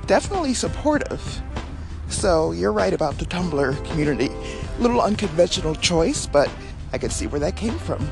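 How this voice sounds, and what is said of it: Out of breath, panting speech. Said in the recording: “Whew, I'm sorry, I'm a little out of breath.”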